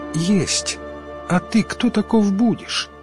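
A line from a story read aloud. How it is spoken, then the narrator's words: Quiet reply. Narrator (Russian): откликнулся кто-то тихим голосом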